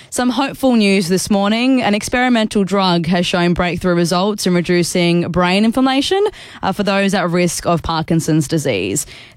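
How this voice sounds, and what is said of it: Slightly sore, strained throat voice. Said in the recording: “I've got a bit of a sore throat”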